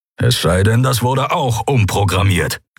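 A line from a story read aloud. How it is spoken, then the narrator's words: Growled. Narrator (German): knurrte Keru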